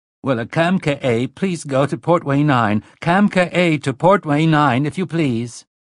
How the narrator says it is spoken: The other began to cry in an automated voice

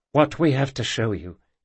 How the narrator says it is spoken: said Janora, her voice quavering

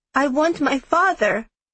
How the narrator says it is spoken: he said, his voice trembling

